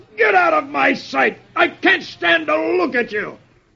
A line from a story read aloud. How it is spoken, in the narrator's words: the sergeant, aching from the two kicks, roars